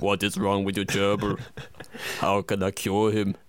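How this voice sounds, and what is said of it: Imitates another person's voice. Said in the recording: “My Arnie impression needs work. It's not really one of my staples.”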